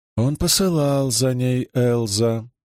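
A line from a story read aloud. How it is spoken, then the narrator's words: Drawled. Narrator (Russian): протянула она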